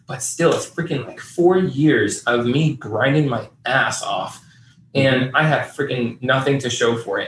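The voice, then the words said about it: Frustrated-sounding voice. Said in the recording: “I'm really frustrated. You can probably hear that in my voice.”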